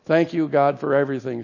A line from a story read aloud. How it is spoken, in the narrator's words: she said